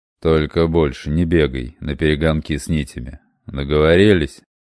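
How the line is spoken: Grumble. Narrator (Russian): проворчал он

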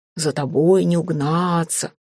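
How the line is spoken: Low male voice. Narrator (Russian): низким мужским голосом заговорило

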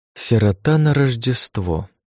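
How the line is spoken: Sighing madam. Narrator (Russian): вздохнула мадам

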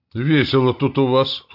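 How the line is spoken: Snorted. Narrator (Russian): хмыкнул я

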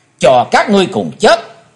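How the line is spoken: Deep heavy shout. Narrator (Vietnamese): Chí Tôn năng trầm quát

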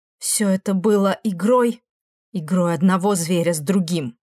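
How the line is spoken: Breathed out. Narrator (Russian): Демон выдохнул

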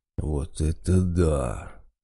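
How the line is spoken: Drawn-out exclamation. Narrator (Russian): протянул Водяной

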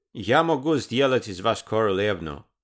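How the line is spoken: Plain. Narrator (Russian): сказал он

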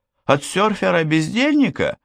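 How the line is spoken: Cheerful teasing. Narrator (Russian): Весело поддела его Петра

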